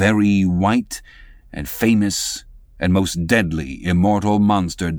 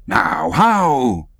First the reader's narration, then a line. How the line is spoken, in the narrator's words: cried all the young Spaniards, crowding